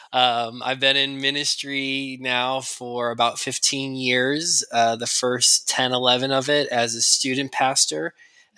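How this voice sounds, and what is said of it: Chicago accent. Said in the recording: “if you hear the Chicago accent”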